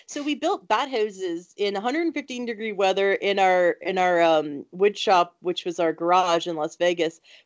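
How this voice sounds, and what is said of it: Thick foreign accent. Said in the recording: “I have this thick accent when I say house.”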